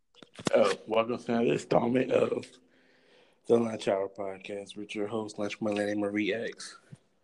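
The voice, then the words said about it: Hoarse, strained voice. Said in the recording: “I'm losing my voice.”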